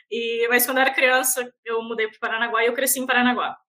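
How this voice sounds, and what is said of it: Florianópolis manezinha Brazilian Portuguese accent. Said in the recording (Portuguese): “vocês podem ver esse sotaque de manezinha autêntica”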